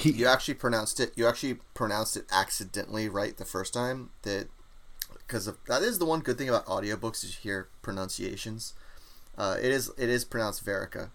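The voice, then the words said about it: American accent. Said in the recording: “I'm butchering it in my American accent.”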